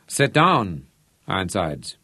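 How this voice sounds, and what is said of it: Slurred vowels, slight German accent. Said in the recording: “Steiner slurred his vowels slightly, just a trace of a Teutonic accent”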